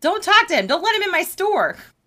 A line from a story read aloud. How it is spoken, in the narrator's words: the man said, and yelled